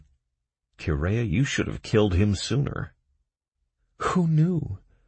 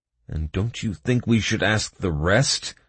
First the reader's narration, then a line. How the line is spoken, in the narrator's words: I growled angrily